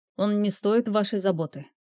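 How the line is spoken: Cold remark. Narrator (Russian): холодно прокомментировал Рионар

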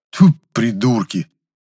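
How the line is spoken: Angry, spitting. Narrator (Russian): зло сплюнул

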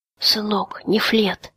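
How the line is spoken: Weak, dying whisper. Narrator (Russian): из последних сил прошептал отец

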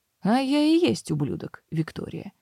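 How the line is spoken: Forced calm. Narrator (Russian): отозвался он как мог спокойно

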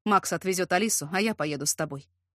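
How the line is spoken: Quiet but firm. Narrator (Russian): тихо, но твердо заключил Ярослав

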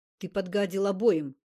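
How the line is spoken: Angry. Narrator (Russian): сердито сказал Зимородинский

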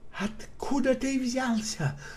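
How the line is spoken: Hissing. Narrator (Russian): прошипела она

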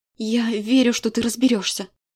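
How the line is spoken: Sincere breathy voice. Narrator (Russian): искренне выдохнула

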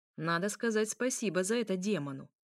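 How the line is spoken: Snapping. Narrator (Russian): огрызнулся он

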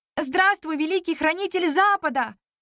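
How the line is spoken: Shouted in chorus. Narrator (Russian): хором прокричали мы

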